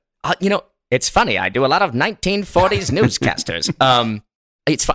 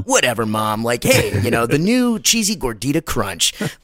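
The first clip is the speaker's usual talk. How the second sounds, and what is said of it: Casual young millennial guy voice. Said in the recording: “I'm kind of just this like young millennial guy and I'm going to kind of talk like this”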